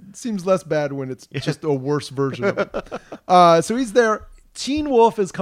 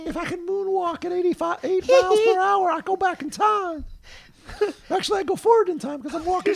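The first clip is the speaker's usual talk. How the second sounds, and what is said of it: Mickey Mouse-like imitated voice. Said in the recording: “I don't do a Michael Jackson impression ... You sound like Mickey Mouse.”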